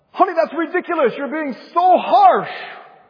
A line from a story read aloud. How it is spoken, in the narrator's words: And she may shout out